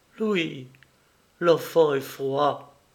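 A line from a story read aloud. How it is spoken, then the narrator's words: Horrible voice. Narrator (French): s'écria d'une voix affreuse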